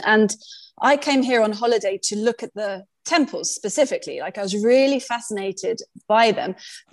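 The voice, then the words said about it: British accent. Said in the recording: “I'm British, clearly from the accent”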